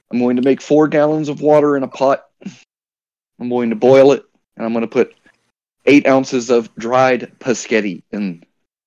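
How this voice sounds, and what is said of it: Imitates another person's voice. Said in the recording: “It's a very bad Pease impression.”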